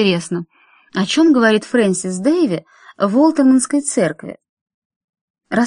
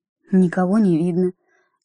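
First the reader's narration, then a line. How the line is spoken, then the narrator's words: Quiet. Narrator (Russian): тихо проговорил он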